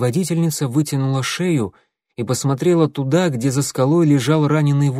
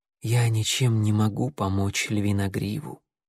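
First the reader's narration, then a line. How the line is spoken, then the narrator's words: Quiet healer's voice. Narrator (Russian): тихо сказала целительница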